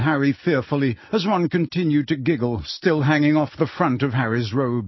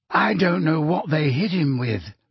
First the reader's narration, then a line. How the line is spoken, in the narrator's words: said Luna sadly